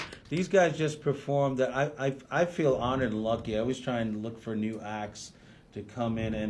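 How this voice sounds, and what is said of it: Usual voice. Nothing is said of it.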